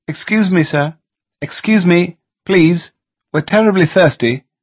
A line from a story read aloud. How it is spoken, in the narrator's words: called out